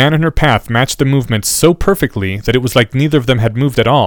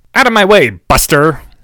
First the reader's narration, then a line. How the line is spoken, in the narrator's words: snapped Rita